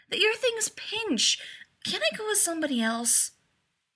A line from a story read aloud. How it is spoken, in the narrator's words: whined